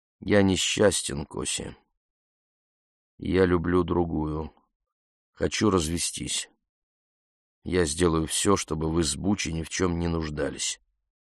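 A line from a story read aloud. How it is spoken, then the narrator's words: Quiet. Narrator (Russian): сказал тихо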